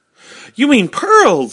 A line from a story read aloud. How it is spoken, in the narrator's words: exclaimed